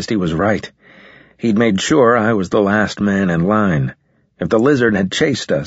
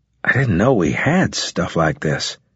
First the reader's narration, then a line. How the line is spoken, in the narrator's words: I said